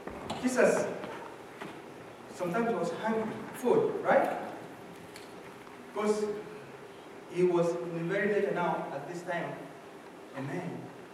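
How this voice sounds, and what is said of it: African accent. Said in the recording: “I may say that with the African accent, and I say, I'm not saying angry.”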